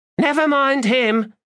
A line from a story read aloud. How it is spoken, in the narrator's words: Faint called out